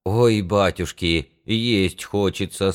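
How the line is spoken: Dejected man's voice. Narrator (Russian): сказал упалым голосом один мужик

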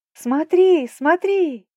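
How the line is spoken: Screaming again. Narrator (Russian): вновь завопила я Риордану

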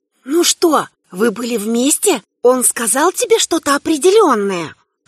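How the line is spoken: Whisper. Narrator (Russian): Шепотом

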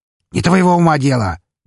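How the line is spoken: Barking shout. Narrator (Russian): гаркнул

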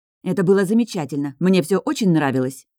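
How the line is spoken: Snapping. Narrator (Russian): огрызнулась Лидия

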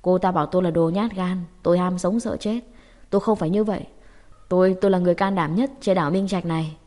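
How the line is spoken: Hoarse shout. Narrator (Vietnamese): gào giọng khàn khàn

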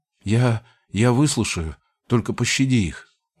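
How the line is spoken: Pitiful pleading mumble. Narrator (Russian): жалким тоном промямлил

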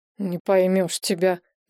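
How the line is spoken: Grumbling. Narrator (Russian): проворчал

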